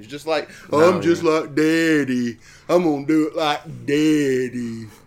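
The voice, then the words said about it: Imitates another person's voice. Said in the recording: “a weird impersonation. ... I think it's very accurate.”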